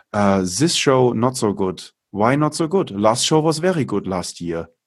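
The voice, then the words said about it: Thick put-on German accent. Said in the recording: “I read them with like the thickest German accent.”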